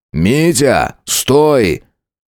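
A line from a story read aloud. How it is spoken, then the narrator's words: Roared at full strength. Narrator (Russian): Что есть мочи, взревел Данила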